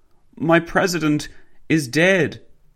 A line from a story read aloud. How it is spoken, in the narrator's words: the woman sobbed